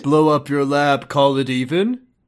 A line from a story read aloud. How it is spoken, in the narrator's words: Jesse laughed